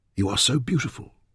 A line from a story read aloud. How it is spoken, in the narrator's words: she whispered